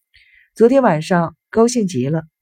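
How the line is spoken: Hearty laughter. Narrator (Chinese): 生意郎哈哈大笑着

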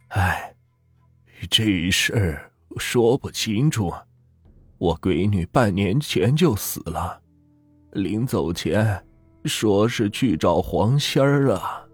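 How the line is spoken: Old man sighing. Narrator (Chinese): 老头止不住又是唉声叹气道

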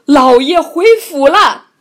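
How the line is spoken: Loud call. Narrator (Chinese): 屠户高声叫道

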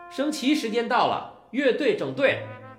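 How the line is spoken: Loud interruption. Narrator (Chinese): 乐队指挥大声的打断道

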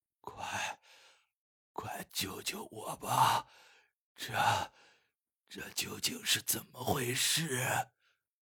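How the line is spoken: Hoarse shout. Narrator (Chinese): 用嘶哑的声音喊道

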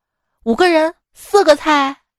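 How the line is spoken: Loud. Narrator (Chinese): 李哥大声的说道

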